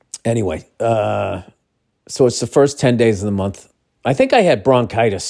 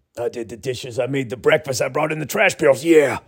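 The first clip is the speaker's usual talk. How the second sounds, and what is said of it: Imitates another person's voice. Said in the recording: “I've been watching a lot of Macho Man Randy Savage ... I'll work on that impression. I know it's brutal.”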